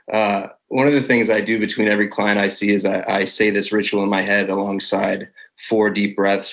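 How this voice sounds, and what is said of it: Voice fading, as if losing it. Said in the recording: “I feel like I'm losing my voice.”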